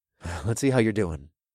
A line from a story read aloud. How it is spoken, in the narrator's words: I purred in the blonde's ear